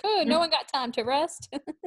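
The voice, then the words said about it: Weird put-on accent. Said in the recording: “weird accent that's not from New York. I don't know where that was from.”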